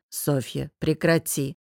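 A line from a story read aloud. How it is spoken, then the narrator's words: Gentle smiling voice. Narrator (Russian): мягко улыбнулся Таллин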